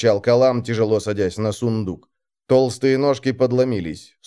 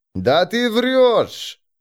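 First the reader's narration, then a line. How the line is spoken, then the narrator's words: Booming drone. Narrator (Russian): прогудел Калам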